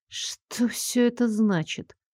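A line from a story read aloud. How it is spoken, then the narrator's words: Whispered under breath. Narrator (Russian): прошептала себе под нос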